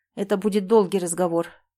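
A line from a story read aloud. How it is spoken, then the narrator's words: Tired. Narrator (Russian): проговорил он устало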